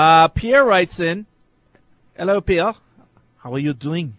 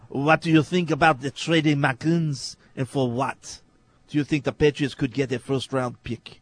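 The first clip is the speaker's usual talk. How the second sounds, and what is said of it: Bad put-on French accent. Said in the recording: “is that Arnold Schwarzenegger or a French accent? ... It's supposed to be French. ... That was horrible. ... That was worse than your British accent.”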